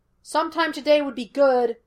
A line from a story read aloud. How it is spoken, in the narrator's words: Laster yelled at them